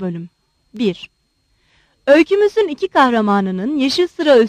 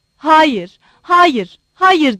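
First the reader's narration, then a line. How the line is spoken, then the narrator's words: Shouted. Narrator (Turkish): diye bağırdı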